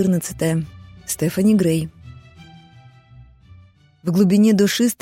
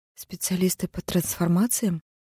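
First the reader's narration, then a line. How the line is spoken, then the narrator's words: Composed, restrained question. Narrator (Russian): уточнила Стефани, стараясь держаться спокойно и достойно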